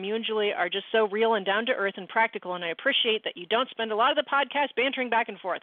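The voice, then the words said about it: Reading aloud very fast. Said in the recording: “I read that so fast”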